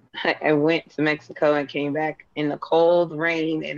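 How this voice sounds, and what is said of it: Hoarse, wheezy voice. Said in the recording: “Excuse my voice. ... Got a little Wheezy Jefferson thing going on here”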